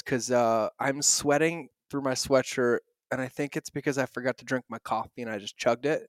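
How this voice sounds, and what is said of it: Loud, over-caffeinated energetic voice. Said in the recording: “I'm overly caffeinated right now ... I might be talking in a louder voice”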